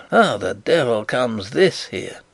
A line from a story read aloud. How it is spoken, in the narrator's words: mutter